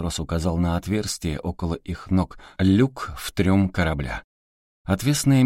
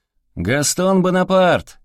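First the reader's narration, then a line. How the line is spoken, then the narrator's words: Shouting down into hold. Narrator (Russian): крикнул матрос в трюм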